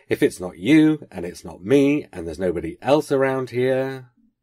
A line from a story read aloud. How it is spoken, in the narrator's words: he said, rather sharply